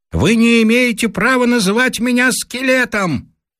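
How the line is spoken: Distant loud shout. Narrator (Russian): вдали громко кричит

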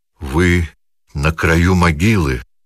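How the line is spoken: Trembling voice. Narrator (Russian): произнес он дрогнувшим голосом

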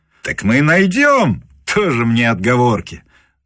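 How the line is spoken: Laughing. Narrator (Russian): засмеялся Муравьев

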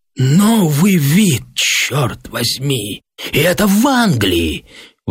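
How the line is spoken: Exclamation. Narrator (Russian): воскликнул Гепли

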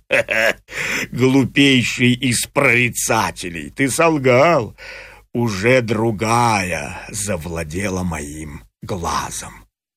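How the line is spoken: Rough laughing exclamation. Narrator (Russian): Грубо засмеялся Полифем и воскликнул

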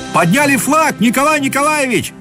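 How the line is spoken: Running man shouting. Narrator (Russian): закричал, наконец, в окно бегущий по дорожке к дому Корсаков

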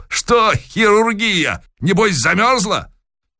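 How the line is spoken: Cheerful shout. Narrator (Russian): беспокойно заерзал и, полуобернувшись к спутнице, весело прокричал

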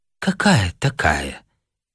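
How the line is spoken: Quiet speech. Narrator (Russian): тихо произнесла девушка

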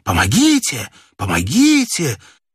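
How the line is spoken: Hoarse desperate repeated shouting. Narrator (Russian): чей-то хриплый отчаянный голос несколько раз прокричал

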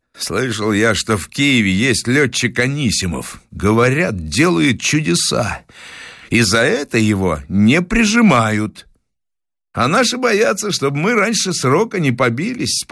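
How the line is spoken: Calm statement. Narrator (Russian): спокойно констатировал товарищ

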